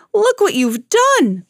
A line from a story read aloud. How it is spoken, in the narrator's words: cried